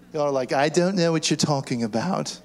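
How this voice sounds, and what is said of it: Put-on English accent. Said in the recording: “I shouldn't use an English accent.”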